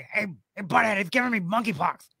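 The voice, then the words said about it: Beavis and Butthead impression. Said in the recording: “I do a good Beavis and Butthead impression.”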